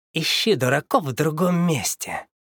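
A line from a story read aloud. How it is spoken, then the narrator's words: Hiss. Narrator (Russian): прошипел он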